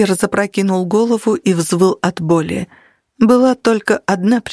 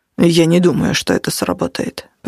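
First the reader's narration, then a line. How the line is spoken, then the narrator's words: Muttered. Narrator (Russian): пробормотал Натаниэль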